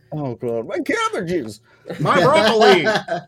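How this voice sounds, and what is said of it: Cartoon character voice impression. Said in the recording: “his best impression of the cabbage guy from the Avatar series”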